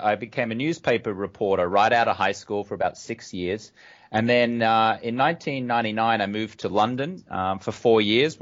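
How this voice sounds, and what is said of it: Australian accent. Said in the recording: “I'm a funny talker, which means I grew up in Australia, as you can tell from my accent.”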